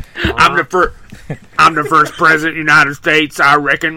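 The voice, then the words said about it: Put-on full Texan accent. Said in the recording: “Would he not even try to hide the accent? ... Full Texan.”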